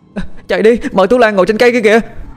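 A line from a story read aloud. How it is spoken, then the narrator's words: Shouting while running. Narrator (Vietnamese): Cái Ngân vùng chạy, miệng hét toáng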